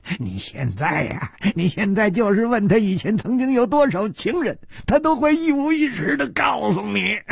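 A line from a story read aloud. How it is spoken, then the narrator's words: Cruel, leisurely tone. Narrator (Chinese): 他残酷地笑了笑，悠悠地接着说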